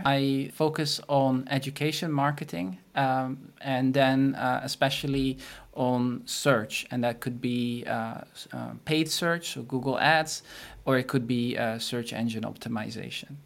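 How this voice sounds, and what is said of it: Dutch-accented English. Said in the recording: “our listeners can hear that you have an accent ... I'm a Dutch marketer”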